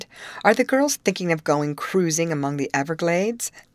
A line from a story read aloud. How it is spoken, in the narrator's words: he laughed heartily